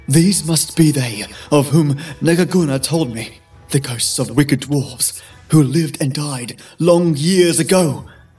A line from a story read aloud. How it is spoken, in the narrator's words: gasped for breath, muttering to himself